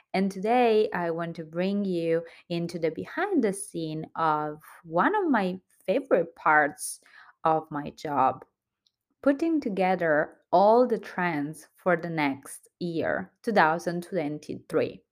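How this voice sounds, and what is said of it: Italian accent. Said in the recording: “your favorite Italian accent host”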